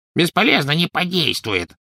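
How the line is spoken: Grumbling. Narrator (Russian): проворчал гоблин

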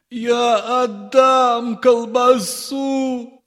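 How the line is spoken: Man shouting. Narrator (Russian): закричал отец Федор

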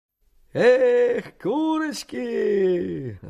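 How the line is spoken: Merry shouting and whistling. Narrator (Russian): закричал, засвистел мужик, наполнив тишину весельем

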